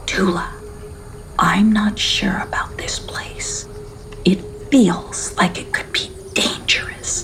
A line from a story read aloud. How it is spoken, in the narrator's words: she whispered